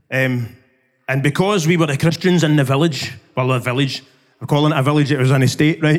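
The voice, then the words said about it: Glaswegian Scottish accent. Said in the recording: “I grew up in the East End of Glasgow. You might be able to tell by my accent.”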